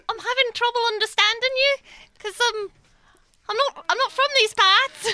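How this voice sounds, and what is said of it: Mixed northern and southern English accent. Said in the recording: “I'm an American doing some sort of mixed northern... South accent”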